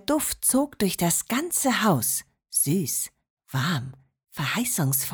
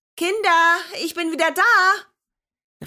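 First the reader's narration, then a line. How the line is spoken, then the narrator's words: Grandmother calling, slightly tired. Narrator (German): rief Oma Marianne mit leicht erschöpfter Stimme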